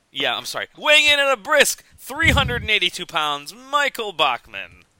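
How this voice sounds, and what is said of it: Announcer-style radio voice. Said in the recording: “That was radio voice that for no reason I started using it all of a sudden.”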